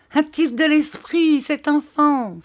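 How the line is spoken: Crying out. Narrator (French): s'écria Peggotty

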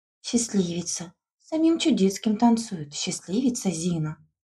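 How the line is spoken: Envious whispers. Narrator (Russian): Зашептали с завистью вокруг нее

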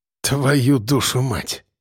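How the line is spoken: Exhaled. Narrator (Russian): Выдохнул рыжий

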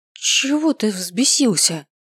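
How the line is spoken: Forced out. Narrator (Russian): выдавила я

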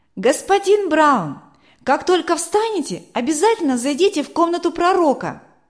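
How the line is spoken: Shouted through closed door. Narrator (Russian): крикнул Матфей, не открывая дверь

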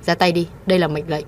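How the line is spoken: Cold command. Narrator (Vietnamese): Cô lạnh lùng ra lệnh

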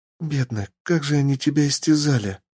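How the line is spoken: Whispered. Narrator (Russian): прошептала она

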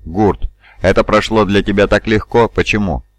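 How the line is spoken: Snorting. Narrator (Russian): Бронсон фыркнул

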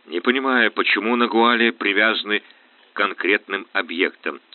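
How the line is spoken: Plain. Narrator (Russian): сказал он

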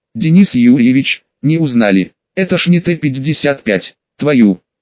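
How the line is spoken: Short laugh. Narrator (Russian): Кравченко хохотнул

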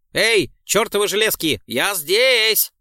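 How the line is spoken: Shouted. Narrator (Russian): прокричал

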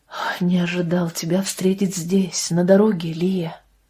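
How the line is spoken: Said in low voice. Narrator (Russian): вполголоса молвил

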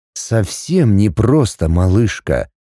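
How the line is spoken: Bewildered reply. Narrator (Russian): Как-то растерянно ответил он

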